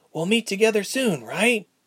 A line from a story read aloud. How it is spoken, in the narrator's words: Ilse asked nervously